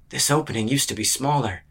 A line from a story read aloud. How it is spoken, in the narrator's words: he murmured